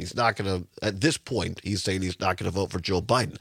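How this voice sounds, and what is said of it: Hoarse, congested cold-affected voice. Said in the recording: “You can probably tell it in my voice... allergies and cold... took a turn back for the worse... the frog in my throat”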